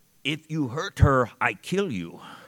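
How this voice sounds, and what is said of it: Imitated Russian accent. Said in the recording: “in her Russian accent, says to me”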